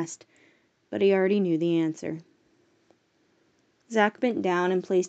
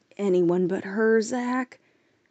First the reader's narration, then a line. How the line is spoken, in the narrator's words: Copper pleaded